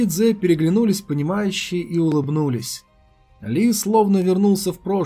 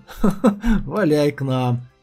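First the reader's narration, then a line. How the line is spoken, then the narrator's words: Laughing. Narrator (Russian): рассмеялся Ли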